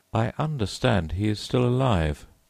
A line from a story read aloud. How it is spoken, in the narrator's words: I answered